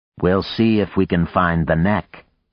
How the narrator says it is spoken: Vlad said dryly

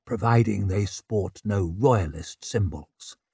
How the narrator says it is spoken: He leaned close to murmur

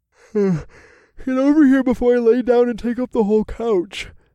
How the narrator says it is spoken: I said through a yawn

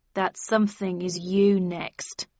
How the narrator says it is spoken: spat Tweed

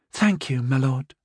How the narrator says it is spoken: Thena said sweetly

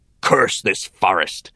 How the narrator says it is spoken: thundered

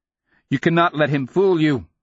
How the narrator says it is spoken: the boy cried, trying to goad a pride that did not exist

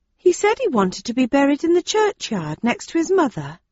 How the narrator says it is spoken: said another of the villagers in a respectful tone

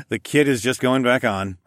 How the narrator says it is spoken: I chuckled

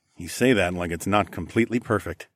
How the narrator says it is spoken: I muttered

